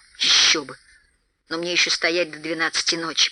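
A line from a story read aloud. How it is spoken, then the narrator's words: Grumbling mutter. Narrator (Russian): пробурчал толстяк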